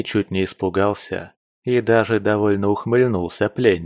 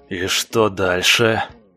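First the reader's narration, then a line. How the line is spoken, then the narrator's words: Angry hiss. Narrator (Russian): злобно прошипел куратор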